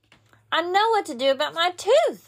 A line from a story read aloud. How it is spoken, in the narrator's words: I hollered, real happy